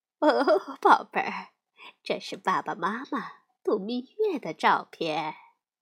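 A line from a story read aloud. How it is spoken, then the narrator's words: Warm smiling speech. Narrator (Chinese): 熊妈妈笑眯眯地说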